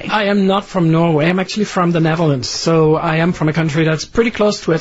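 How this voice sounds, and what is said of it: Slight foreign accent. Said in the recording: “you have a little bit of an accent”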